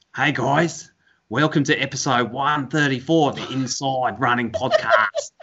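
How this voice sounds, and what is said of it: Australian impression sounding like Steve Irwin. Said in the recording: “I can do an impression of him ... You sound like Steve Irwin.”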